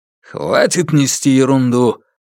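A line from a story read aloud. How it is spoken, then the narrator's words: Rude interruption. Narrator (Russian): грубо оборвал его братец Хук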